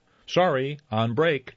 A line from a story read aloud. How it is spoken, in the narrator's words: Scatty shouted